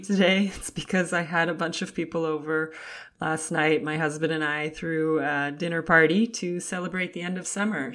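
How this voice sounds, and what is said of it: Raspy voice. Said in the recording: “my voice sounds a little raspy”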